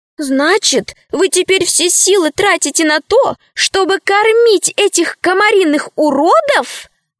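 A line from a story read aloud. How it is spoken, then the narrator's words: Exclaiming. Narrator (Russian): воскликнула рабыня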